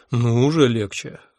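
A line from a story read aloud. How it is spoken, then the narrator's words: Sigh. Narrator (Russian): вздохнул я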